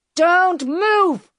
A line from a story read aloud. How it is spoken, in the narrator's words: shouted